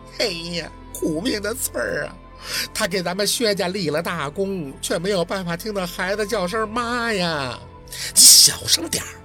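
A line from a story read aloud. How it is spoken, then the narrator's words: Sorrowful weeping. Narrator (Chinese): 太老哭声戚戚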